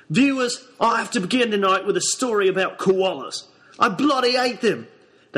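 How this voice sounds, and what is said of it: Put-on Australian accent. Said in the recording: “the current accent's Australian, or something like it”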